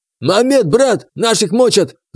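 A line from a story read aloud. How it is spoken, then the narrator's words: Yell. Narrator (Russian): заорал он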